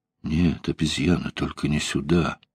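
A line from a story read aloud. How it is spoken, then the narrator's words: Muttered. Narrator (Russian): пробормотал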